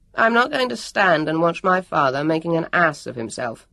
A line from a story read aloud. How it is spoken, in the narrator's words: Jonathan answered haughtily